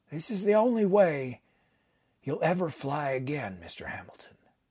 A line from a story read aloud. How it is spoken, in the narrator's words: He paused and then added quietly